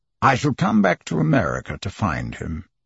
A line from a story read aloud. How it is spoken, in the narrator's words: said Phileas Fogg coldly